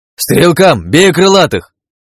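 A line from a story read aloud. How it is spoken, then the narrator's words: Shouted. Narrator (Russian): я крикнул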